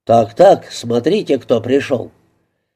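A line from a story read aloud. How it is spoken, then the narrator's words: Cheerful deep bass. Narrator (Russian): Мистер Огден весело пробасил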